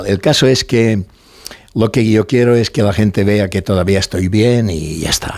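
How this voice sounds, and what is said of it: Strong Mallorcan Spanish accent. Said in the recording (Spanish): “Tienes un enorme acento mallorquín”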